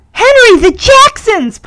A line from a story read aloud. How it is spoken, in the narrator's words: Punky says excitedly